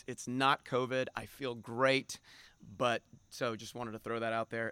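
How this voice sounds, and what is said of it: Hoarse, strained voice. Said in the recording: “I am kind of losing my voice.”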